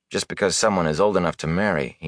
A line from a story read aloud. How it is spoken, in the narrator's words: he muttered